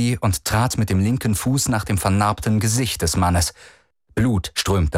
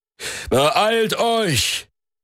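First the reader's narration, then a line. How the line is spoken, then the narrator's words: Called out. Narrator (German): rief er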